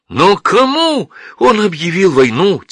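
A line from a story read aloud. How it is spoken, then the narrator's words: Impatient shout. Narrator (Russian): теряя терпение, крикнул я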